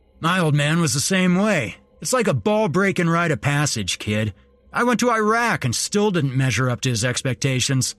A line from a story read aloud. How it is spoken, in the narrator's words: Randy scoffed